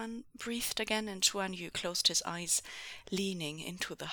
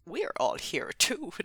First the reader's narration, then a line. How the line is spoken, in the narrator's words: Zhang Cheng grumbled